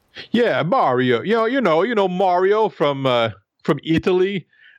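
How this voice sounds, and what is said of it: Attempted New York accent. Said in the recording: “apparently I can't do a New York accent.”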